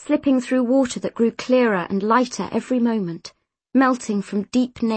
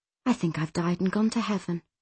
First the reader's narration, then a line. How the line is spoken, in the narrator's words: she murmured